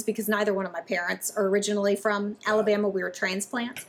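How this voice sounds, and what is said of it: Mild Southern US accent. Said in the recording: “you pick up on a Southern accent. ... Maybe a little more Southern ... Maybe not quite as Southern as my other fellow Alabamians”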